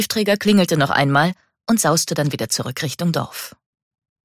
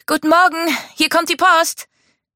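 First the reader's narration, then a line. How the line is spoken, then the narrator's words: Called out. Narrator (German): rief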